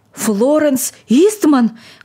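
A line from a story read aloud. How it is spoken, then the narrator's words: Agitated old man's exclamation. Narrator (Russian): воскликнул старик, отшатываясь в неудержимом волнении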